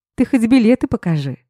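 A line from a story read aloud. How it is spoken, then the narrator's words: Sudden, laughing. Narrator (Russian): спохватилась я и почему-то рассмеялась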